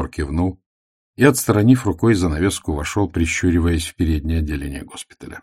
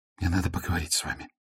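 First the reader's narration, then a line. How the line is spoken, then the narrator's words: Nervous whisper. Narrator (Russian): волнуясь, прошептала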